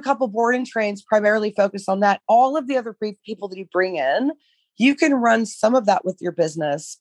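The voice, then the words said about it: Hoarse, failing voice. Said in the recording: “I'm losing my voice here.”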